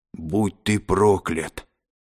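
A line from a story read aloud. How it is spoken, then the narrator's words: Hoarse, half-paralyzed rasp. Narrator (Russian): прохрипел полупарализованный Готиан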